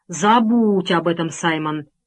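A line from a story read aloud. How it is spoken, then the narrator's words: Sharp reply. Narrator (Russian): резко ответил Гибсон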